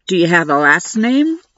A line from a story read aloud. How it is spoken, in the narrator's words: Sophie asked, adding a slight chuckle